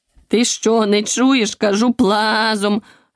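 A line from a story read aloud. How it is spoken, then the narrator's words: Furious bark. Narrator (Ukrainian): люто гаркнула вівця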